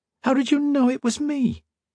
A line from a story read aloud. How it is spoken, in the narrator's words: Modo squeaked